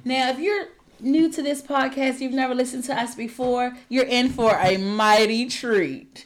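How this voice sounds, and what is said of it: Smooth radio announcer voice. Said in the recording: “in my best radio announcer voice ... Kaylin Smooth Jazz”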